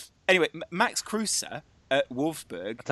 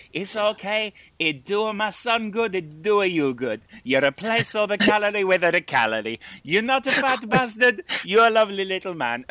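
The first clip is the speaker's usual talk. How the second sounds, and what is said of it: Impression of an old Italian woman. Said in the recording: “Fantastic impression, by the way. Fantastic impression. ... I do very good impression of old Italians.”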